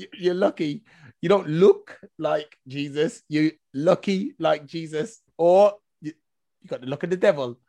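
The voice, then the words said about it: Noticeable accent. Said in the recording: “I'm sorry if my accent is getting over you here”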